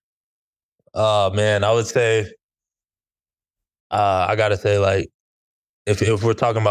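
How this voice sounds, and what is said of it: Usual voice. Nothing is said of it.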